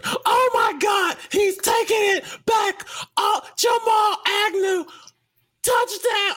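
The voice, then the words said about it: Imitates an energetic sports play-by-play call. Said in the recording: “my best Gus Johnson impression? ... the Gus Johnson call ... he's used all his energy to describe the play”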